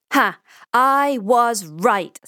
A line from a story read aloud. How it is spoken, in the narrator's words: says Pablo triumphantly